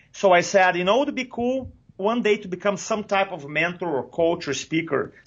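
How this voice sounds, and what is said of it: Thick non-native English accent. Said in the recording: “English, my third language, I have a thick accent”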